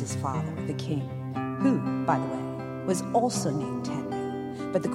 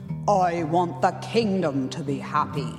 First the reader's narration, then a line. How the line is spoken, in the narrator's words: the king roared in his booming king voice